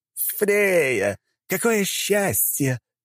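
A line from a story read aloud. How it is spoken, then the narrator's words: Cheerful cry, voice cracking. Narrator (Russian): весело вскрикнул Локи, но голос в конце фразы дал петуха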